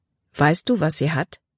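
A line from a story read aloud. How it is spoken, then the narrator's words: Plain question. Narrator (German): fragte Caleb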